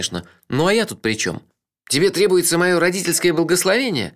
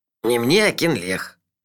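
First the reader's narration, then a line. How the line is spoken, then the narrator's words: Gloomy explanation. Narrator (Russian): мрачно объяснил он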